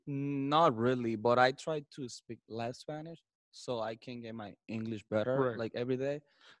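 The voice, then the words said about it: Spanish-accented English. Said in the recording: “do you feel like you lose your Spanish? ... Everyone wants to hear your accent”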